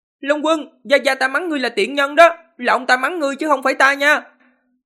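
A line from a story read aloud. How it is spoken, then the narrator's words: Loud. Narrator (Vietnamese): lớn tiếng nói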